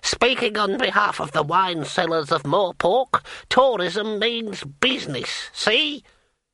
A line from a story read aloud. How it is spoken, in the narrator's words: An old bearded man cackled